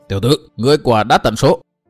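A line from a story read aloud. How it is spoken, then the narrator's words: Loud shout through teeth. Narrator (Vietnamese): Lão già không thể nhịn nổi, cắn răng hét lớn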